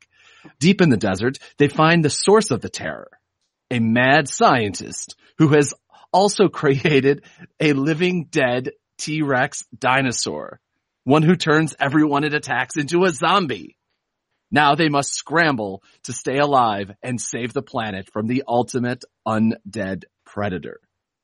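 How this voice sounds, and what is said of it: Romantic comedy movie trailer voice. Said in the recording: “I didn't do the "in a world gone" trailer voice. I did the romantic comedy voice”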